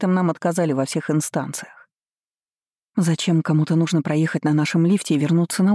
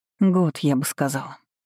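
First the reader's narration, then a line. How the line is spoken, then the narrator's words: Sighing. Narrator (Russian): вздохнула я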